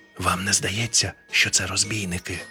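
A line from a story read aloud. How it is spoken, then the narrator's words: Whispered question, ghost. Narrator (Ukrainian): пошепки спитав привид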